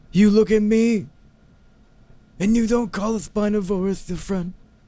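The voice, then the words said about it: Godfather-style Italian mobster impression. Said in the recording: “that's actually a really good impression.”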